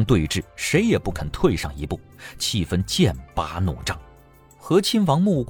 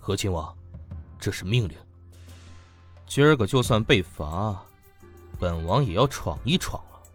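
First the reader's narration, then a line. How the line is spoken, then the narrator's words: Deep stern voice. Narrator (Chinese): 侍卫长板着脸皱着眉沉声道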